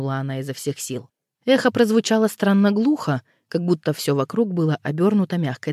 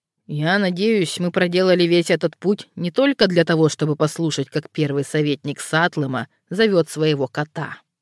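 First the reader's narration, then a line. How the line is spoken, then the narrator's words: Grumbling. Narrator (Russian): заворчал посол Скраймера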